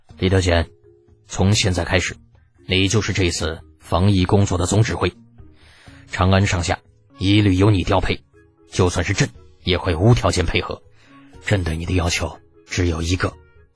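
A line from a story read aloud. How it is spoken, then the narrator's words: Low, deep voice. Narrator (Chinese): 沉声道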